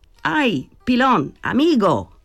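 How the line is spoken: Shouting. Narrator (Italian): Gridò

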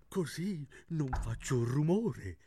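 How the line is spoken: Whisper. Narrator (Italian): bisbigliò

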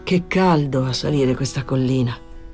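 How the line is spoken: Exclamation. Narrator (Italian): Danny esclamò

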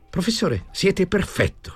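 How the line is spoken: Plain. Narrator (Italian): disse Tommasini

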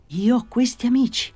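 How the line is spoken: Astonished exclamation. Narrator (Italian): esclamò nel suo stupore

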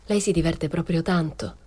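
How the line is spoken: Cold question. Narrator (Italian): le chiesi freddamente

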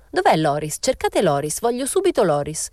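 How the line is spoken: Exclaiming. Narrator (Italian): esclamò

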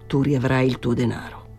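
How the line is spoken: Murmuring. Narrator (Italian): mormorò

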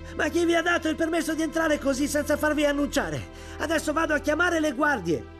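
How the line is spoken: Stable boy yelling. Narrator (Italian): un garzone che urlò

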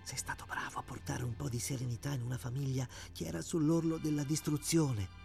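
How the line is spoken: Whisper in the ear. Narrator (Italian): sussurrò all'orecchio

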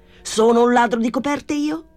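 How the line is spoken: Shouting. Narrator (Italian): gridò

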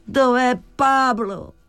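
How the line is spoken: Exclamation. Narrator (Italian): esclamò

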